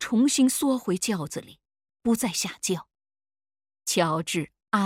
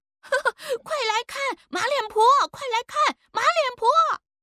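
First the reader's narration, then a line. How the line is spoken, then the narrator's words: Children jeering in chorus. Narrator (Chinese): 几个不懂事的奴仔也跟着喊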